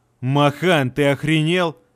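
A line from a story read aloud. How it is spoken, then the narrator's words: Roaring. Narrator (Russian): взревел Плинта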